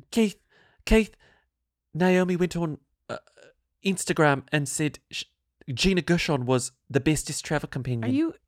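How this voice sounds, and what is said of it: Bad put-on South African accent. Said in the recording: “What accent are you doing? ... It was sort of South African, but maybe it was just bad. ... That was terrible.”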